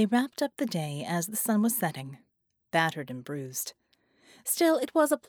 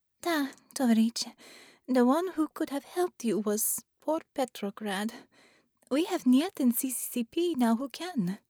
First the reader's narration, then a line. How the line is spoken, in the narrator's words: Gamayun added sadly